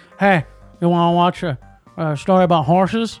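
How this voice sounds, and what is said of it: Imitates another person's voice. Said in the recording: “my best impression of Bryce ... That is a perfect impression of me. That's exactly what I sound like.”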